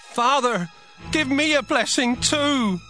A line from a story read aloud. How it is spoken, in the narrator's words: Esau cried loudly and begged